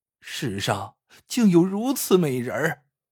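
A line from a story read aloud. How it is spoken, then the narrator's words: Amazed exclamation. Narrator (Chinese): 这孙二烈 一边惊叹着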